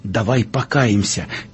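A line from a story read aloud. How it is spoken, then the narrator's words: Mother's soft whisper. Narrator (Russian): тихонько шепнула мама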